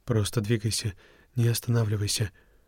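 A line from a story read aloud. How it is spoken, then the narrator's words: Intermittent muttering. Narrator (Russian): бормотала Катрин время от времени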